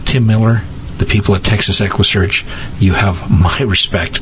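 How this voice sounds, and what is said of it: Choked-up, emotional voice. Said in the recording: “I'm getting a little choked up here”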